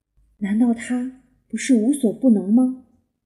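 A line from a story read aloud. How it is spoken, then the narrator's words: Quiet muttering. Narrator (Chinese): 斑比小声嘀咕道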